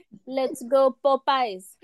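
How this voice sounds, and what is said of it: Put-on French accent. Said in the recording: “I like the little French accent in there.”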